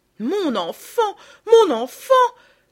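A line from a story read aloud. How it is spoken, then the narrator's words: Crying out. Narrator (French): s'écria Madame de Rosbourg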